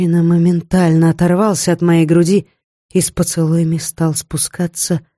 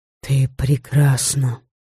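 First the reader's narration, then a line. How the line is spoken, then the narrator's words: Whispered. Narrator (Russian): прошептал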